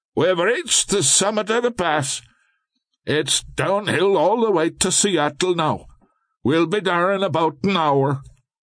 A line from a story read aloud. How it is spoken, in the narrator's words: As the train whistle continued to blast, the conductor shouted